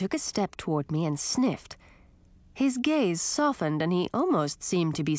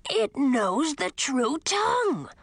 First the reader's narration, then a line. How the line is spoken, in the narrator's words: the dragon exclaimed, in agitation